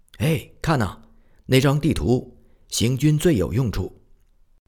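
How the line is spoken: Soldier shouting. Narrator (Chinese): 一个士兵大叫

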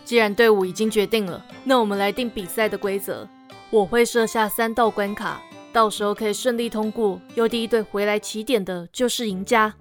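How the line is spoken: Smiling. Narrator (Chinese): 魔法师笑着说

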